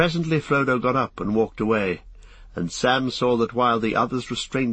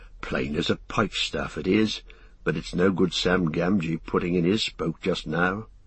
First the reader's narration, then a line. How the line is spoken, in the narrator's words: Sam muttered